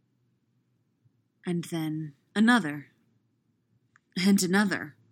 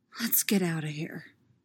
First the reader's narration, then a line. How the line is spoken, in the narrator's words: he whispers